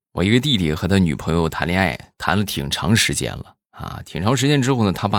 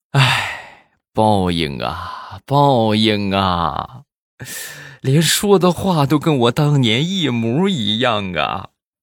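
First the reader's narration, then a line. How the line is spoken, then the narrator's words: Helpless sigh. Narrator (Chinese): 这个准岳父是无奈一叹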